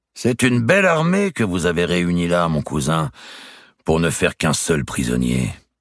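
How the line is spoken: Mocking tone. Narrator (French): dit-il d'un ton railleur

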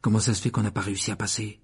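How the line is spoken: Whispered in ear. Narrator (French): chuchota Harry à l'oreille de Ron

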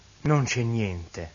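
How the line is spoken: Sighing, then saying. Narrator (Italian): Il signore sospira, dice

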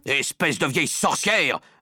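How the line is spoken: Angry yelling. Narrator (French): vociféra Monsieur Jenkins

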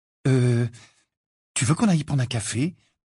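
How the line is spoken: Timid question. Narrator (French): demanda timidement Cho alors que l'averse s'intensifiait

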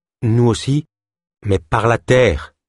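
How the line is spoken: Plain. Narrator (French): dit Delune

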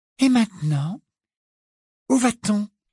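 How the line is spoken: Polite interested question. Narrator (French): demanda-t-elle à Harry d'une voix polie et intéressée, comme s'il s'agissait d'une agréable excursion

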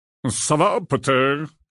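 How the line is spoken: Growling. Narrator (French): grogna alors Maugret

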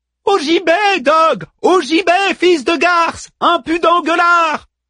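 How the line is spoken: Yelling over storm noise. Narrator (French): hurla Manmut comme pour couvrir le vacarme des vagues et du vent

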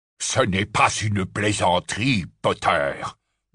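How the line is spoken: Growled. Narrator (French): grogna Scrimgeour

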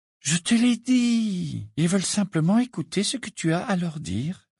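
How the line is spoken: Soothing tone. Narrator (French): répondit Hermione d'un ton apaisant

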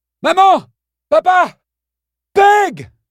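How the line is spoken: Screaming. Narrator (French): hurla-t-il

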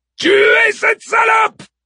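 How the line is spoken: Furious yell. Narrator (French): hurle Achille furibond

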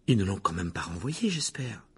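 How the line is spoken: Anxious. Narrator (French): dit Hermione d'une voix anxieuse

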